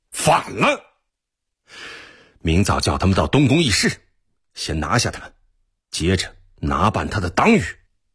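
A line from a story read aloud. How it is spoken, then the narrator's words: Furious. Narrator (Chinese): 真金怒不可遏地说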